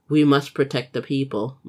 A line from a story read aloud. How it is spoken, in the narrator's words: Manjin said